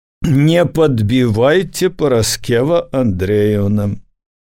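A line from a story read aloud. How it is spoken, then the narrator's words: Condescending smile. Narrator (Belarusian): Башлыкоў першы раз паблажліва усміхнуўся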